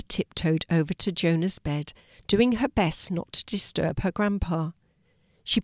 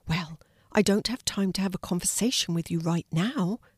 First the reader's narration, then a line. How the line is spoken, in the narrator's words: whispered Finnegan